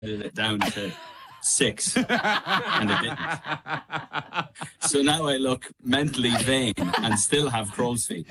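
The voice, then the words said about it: Irish accent. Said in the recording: “your accent ... Of all the things I associate the Irish with”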